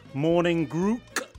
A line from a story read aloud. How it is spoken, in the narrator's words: said Trevor